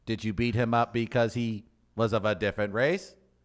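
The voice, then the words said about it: Poor imitation of a robot voice. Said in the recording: “That's a bad RoboCop ... impersonation ... Really bad ... That's a horrible RoboCop ... You can't do a robot”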